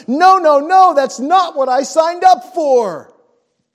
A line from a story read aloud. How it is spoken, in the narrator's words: run screaming into the night going